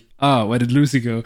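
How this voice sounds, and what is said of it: Poor put-on French accent. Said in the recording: “Because he's French. That's a poor French accent.”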